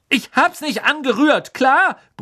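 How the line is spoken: Bellowing back. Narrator (German): brüllte Ron zurück

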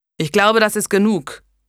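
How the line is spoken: Growl. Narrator (German): knurrte er

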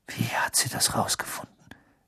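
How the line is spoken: Whisper. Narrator (German): wisperte er

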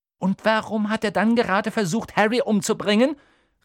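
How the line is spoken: Exclaimed. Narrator (German): rief Hermine

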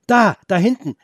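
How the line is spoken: Excited calling out. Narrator (German): rief Felix ganz aufgeregt

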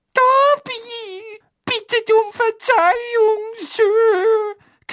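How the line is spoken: Timid squeak. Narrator (German): quiekte Dobby verschüchtert

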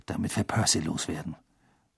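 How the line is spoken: Murmuring. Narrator (German): murmelte Ron Harry zu

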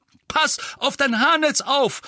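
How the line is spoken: Calling out. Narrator (German): rief Mandanges

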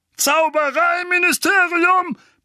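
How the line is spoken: Roaring. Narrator (German): brüllte Onkel Vernon

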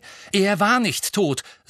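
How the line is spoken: Angry. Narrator (German): sagte Harry zornig

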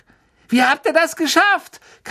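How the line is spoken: Shrieking. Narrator (German): kreischte

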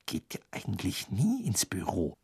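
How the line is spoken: Sudden whisper. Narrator (German): flüsterte Hermine plötzlich

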